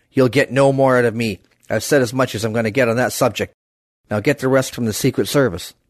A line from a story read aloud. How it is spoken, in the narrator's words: Call grunted